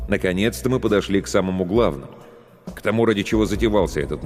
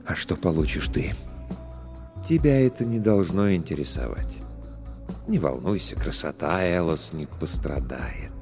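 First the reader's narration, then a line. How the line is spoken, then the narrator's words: Quiet, suppressed anger. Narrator (Russian): С трудом удерживая в груди закипающий гнев, я спросил тихо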